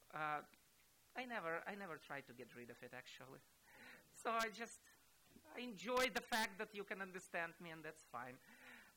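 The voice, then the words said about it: Russian accent. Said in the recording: “I didn't learn the Texan accent ... My accent is still Russian.”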